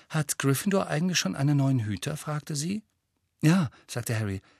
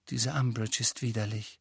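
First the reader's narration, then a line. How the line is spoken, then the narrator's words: Quiet voice. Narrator (German): sagte sie mit leiser Stimme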